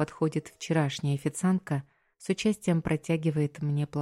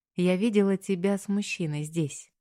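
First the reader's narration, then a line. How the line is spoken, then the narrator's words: Plain. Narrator (Russian): говорит она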